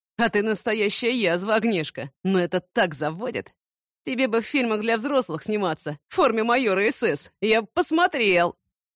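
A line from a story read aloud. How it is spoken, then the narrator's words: Nasty laugh. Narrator (Russian): И противненько так засмеялся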